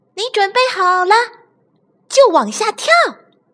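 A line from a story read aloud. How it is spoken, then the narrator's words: Loud shouting. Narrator (Chinese): 其他玩具对小憨大声喊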